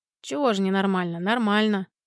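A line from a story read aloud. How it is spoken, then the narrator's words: Mumbled reply. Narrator (Russian): Буркнул в ответ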